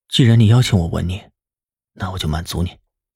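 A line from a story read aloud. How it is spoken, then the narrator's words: Low husky, lips touching. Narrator (Chinese): 南离川的唇贴在他的唇上，声音低哑的道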